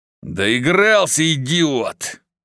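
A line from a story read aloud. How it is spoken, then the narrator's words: Growling. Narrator (Russian): прорычал Босх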